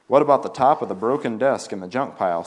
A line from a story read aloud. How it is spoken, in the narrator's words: said another